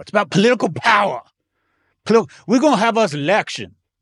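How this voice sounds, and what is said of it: Imitates another person's voice. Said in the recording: “my impression of James Carville”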